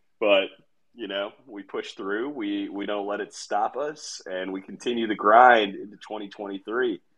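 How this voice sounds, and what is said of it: Sick, under-the-weather voice. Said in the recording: “You could probably still hear it in my voice. Not only am I still a little bit sick”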